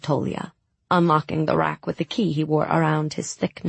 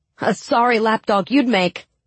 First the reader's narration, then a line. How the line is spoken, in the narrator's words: Tamar laughed